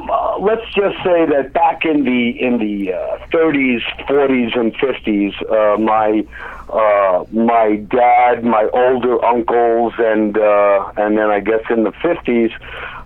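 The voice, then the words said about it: New Jersey accent. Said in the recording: “barely audible accent that I have, I'm from the New Jersey area”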